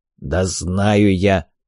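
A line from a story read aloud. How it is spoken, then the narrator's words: Dwarf's perfunctory grumble. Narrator (Russian): проворчал гном, как мне показалось, больше для порядка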